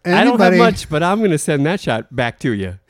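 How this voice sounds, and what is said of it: Impression of Dikembe Mutombo. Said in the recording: “going to do an impression of the guy you thought of ... Dikembe Motombo”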